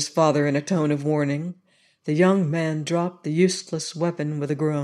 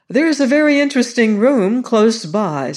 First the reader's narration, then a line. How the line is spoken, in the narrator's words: said Lord Gowrie hastily